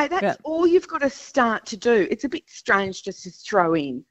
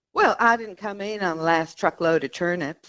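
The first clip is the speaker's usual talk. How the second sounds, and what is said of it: Dr. Phil impression. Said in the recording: “How would you say that line from Dr. Phil?... a Dr. Phil accent, but it gives you such gravitas. It gives you such heft”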